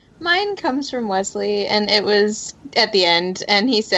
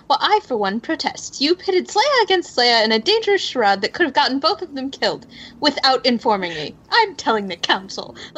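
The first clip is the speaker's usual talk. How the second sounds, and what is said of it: Put-on accent quoting Wesley. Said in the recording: “I love your accent.”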